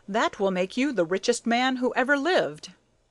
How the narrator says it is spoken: exclaimed President Boone

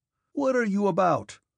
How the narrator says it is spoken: shouted Rostov, in an ecstasy of exasperation

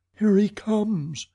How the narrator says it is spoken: cried Christine

